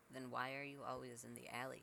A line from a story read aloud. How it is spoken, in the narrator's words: Cece asked